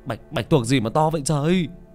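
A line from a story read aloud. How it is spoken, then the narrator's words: Shout. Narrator (Vietnamese): Hồng Bonsai hét lên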